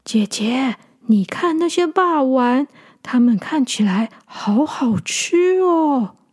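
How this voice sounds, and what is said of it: Quiet, hushed childlike voice. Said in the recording (Chinese): “很小声的跟姐姐说”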